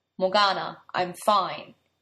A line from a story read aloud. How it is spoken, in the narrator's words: he said in a flat voice